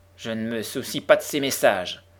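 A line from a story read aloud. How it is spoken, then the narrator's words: Grumbled. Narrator (French): grommela sa seigneurie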